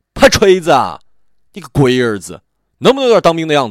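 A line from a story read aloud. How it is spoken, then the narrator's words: Roaring shout. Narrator (Chinese): 小五大吼了一声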